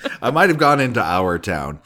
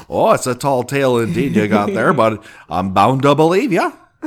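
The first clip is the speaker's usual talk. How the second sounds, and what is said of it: Poor put-on Canadian accent. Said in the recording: “My apologies to the Canadians. ... I'm not good with accents. It's just not my bag.”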